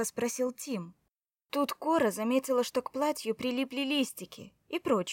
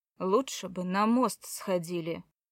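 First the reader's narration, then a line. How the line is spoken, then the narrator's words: Grumbling. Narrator (Russian): проворчал Тим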